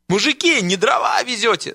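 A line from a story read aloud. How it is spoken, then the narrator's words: Groaning. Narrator (Russian): стонал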